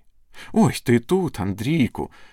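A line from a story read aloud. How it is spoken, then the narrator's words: Exclaiming. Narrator (Ukrainian): вигукнула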